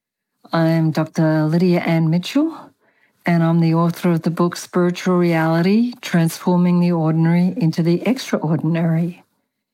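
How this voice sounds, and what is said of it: Australian accent. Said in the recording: “I have an accent. I was born in Australia and apparently I have never lost my accent. ... It has not disappeared even after living in four countries”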